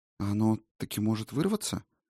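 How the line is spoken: Quiet question. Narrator (Russian): тихонько спросила Сигарлин

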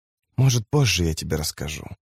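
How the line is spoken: Dry, trickling whisper. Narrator (Russian): прошептала она голосом, напоминающим сыплющиеся песчинки

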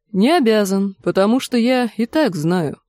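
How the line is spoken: Calm. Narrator (Russian): спокойно произнес констебль Пикша

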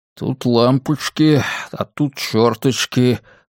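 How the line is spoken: Muttering. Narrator (Russian): пробормотал он

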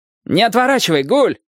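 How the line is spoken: Shout from afar. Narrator (Russian): крикнул с носа Вязников

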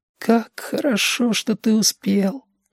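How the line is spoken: Whisper. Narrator (Russian): шепотом сказал Дем Рожок

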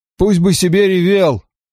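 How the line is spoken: Dismissive snort. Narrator (Russian): хмыкнул Дэйв

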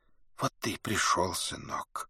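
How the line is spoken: Dry-lipped whisper. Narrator (Russian): сухие обтянутые губы шептали

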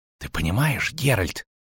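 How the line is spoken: Whisper. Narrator (Russian): шепнул Лютик

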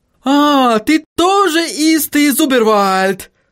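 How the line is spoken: Joyful exclamation. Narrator (Russian): Радостно воскликнул Отто

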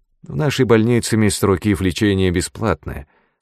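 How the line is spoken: Calm interruption. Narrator (Russian): спокойно прервал его директор

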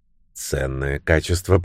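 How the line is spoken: Muttered. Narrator (Russian): пробормотал Люк

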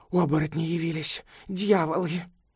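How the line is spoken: Terrified mumble. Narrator (Russian): он от страха мог лишь пробормотать

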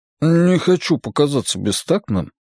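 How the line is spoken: Mumbled. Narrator (Russian): пробормотал Джеспер Уайлену

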